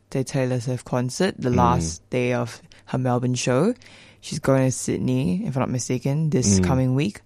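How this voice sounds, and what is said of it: Hoarse, tired voice. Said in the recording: “Really tired. Apologies if my voice sounds a bit hoarse and sleep deprived”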